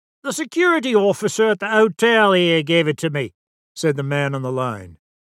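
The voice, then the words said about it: Salty Cockney accent. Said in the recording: “His salty Cockney accent savored of London”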